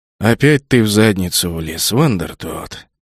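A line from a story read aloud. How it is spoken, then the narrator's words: Tired weary speech. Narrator (Russian): устало проговорил капитан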